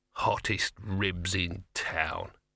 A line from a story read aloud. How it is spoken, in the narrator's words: he muttered